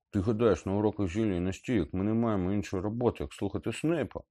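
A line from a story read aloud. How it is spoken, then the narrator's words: Grumbling. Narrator (Ukrainian): буркнув Рон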